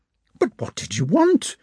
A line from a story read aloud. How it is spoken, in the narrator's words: cried Marya Dmitrievna, growing angry again